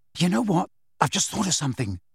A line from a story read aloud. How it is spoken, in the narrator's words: said Ron in a hushed voice